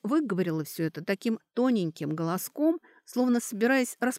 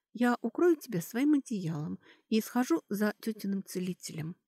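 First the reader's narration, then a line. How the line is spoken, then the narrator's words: Hushed, careful not to wake. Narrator (Russian): Кэтри тихо, будто боясь разбудить, сказала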